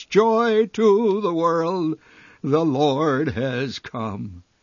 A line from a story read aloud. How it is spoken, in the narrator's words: thundered a thousand-voiced heavenly chorus